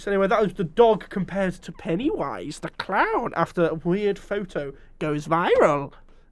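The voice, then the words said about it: Put-on character voice. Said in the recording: “I don't know why I'm doing the voice. ... Yoda?”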